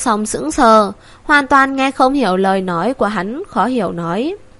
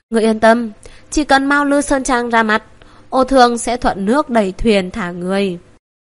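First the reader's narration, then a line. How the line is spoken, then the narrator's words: Sighing. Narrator (Vietnamese): Ngũ Hưu Đạo thở dài nói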